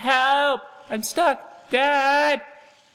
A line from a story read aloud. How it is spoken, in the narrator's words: I started screaming